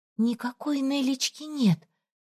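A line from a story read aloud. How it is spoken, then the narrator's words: Stunned whisper. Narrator (Russian): прошептала ошеломленно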